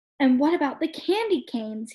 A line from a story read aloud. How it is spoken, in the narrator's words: asked eagerly